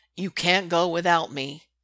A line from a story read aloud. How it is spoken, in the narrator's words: he growls